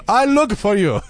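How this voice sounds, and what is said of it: Bad put-on Italian accent. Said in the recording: “My accent is so bad ... My Italian really needs some work.”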